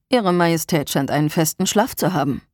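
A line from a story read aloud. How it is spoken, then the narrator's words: Dry remark. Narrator (German): stellte er trocken fest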